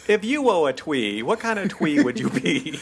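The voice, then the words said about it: Mock speech impediment, w for r. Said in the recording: “Gilda Radner does her Baba Wawa impersonation”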